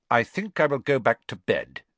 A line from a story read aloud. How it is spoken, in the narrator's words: Snape said, curtly